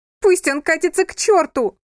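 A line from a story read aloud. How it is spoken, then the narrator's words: Thunderous. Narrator (Russian): прогремел ее голос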